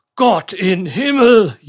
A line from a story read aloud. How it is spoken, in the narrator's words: yelled the German